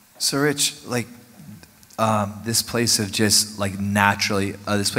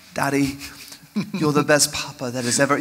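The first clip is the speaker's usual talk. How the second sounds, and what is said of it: Put-on accent, playful voice. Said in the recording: “Such a good accent.”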